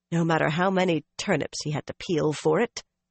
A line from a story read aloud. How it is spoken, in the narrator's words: Nynaeve muttered